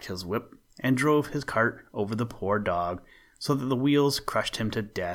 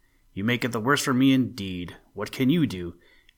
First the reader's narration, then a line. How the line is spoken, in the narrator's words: the carter, grumbling to himself